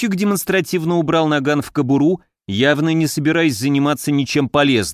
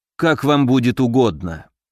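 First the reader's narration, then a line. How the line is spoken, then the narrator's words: Weary. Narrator (Russian): устало отозвался Дельвик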